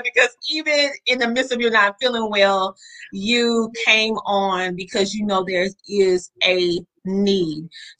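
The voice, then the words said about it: Southern American twang. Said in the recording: “They know they can hear my southern twang.”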